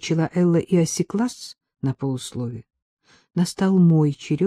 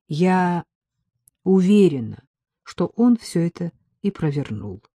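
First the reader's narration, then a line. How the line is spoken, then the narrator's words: Plain. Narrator (Russian): ответила я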